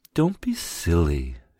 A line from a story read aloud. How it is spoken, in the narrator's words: she cooed